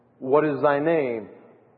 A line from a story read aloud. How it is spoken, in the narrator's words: answered